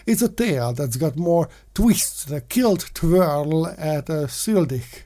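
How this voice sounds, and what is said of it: Attempted Scottish accent. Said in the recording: “I'm trying to speak Scottish. I have no idea what I'm doing.”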